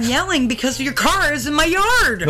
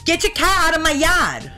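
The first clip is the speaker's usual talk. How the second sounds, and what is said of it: Boston accent. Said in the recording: “How about you do a Massachusetts accent? ... Are you talking about Boston? ... one of the most difficult accents to try”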